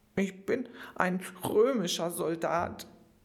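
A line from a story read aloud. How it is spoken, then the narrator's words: Boy sobbing. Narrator (German): schluchzte der Junge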